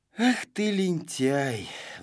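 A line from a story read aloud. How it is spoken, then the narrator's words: Sigh. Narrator (Russian): вздохнул Знайка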